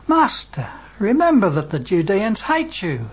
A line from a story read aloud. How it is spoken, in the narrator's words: exclaims Peter